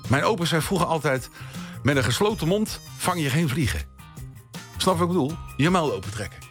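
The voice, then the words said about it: Hague Dutch accent. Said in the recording (Dutch): “ik kom uit Den Haag. En dat accent, dat krijg je er gratis bij”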